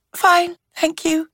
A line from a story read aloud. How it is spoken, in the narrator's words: gulping air like a dying fish, Chloe said brightly